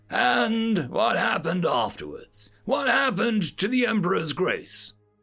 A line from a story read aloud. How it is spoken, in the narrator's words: his voice strained, the ambassador asked